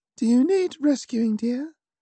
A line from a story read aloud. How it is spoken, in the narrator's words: I asked, taking care to pitch my voice as high as I could without cracking